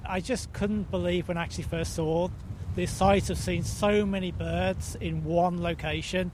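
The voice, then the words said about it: Non-Northern Irish accent. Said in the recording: “I know from your accent that you're not local to Northern Ireland”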